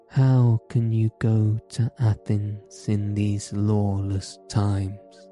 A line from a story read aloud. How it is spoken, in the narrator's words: he said